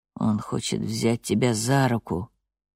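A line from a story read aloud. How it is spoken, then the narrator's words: Quiet speech. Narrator (Russian): тихо говорит Пьетюр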